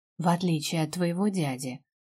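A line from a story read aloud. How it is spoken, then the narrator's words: Gloomy. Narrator (Russian): добавила уже мрачно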